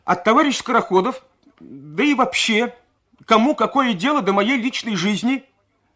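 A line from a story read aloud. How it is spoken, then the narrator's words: Shouted. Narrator (Russian): Последние слова она выкрикнула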